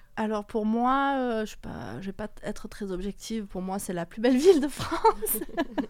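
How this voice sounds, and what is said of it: Slight Marseille French accent. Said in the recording (French): “il y a un petit accent. Tu es née à Marseille ? ... je suis 100% marseillaise”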